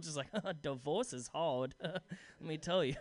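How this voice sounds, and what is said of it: Comic put-on character voice. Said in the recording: “I just love doing that voice.”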